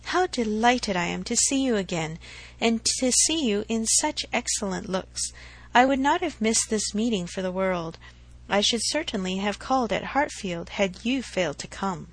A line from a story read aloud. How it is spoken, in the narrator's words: replied Emma, and she spoke so kindly